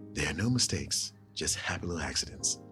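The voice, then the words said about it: Bob Ross impression. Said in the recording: “I'm going to do a Bob Ross impression”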